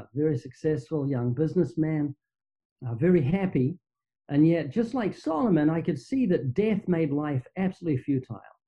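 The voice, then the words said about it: Slight New Zealand accent. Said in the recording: “you might notice I have a slight accent. That's because I'm from New Zealand, down under.”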